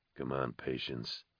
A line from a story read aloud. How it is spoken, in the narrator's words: he murmured